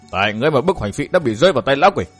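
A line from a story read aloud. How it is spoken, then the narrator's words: Angry. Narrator (Vietnamese): Thạch Ngạo tức giận quay lại Lâm Cầu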